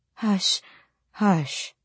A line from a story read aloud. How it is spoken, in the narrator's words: Mama breathed